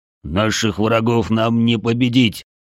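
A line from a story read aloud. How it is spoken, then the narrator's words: Growl. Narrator (Russian): рыкнул Бедвар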